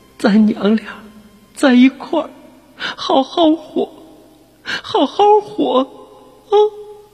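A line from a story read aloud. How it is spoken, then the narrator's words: Mother holding back tears. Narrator (Chinese): 母亲忍住哭声说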